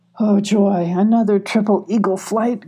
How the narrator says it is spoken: grumbled Moon

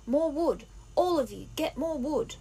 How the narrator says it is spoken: Ralph shouted

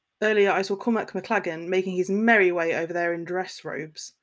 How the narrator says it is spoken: Malfoy scoffed

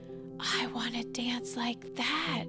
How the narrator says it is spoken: whispered

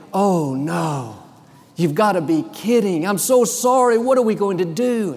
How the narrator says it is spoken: She said so dramatically

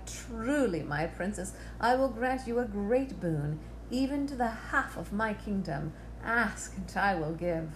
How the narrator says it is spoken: he cried

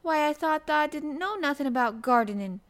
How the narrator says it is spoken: he exclaimed

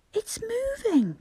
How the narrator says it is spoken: cried Bobby

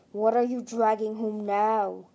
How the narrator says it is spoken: snarled

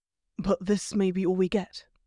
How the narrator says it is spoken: he whispered

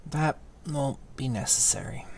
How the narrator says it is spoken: he said thickly

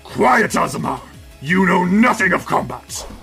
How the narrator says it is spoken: Zecora grunts and says

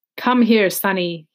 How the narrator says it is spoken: he says

